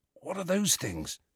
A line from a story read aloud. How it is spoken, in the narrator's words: whispered Ron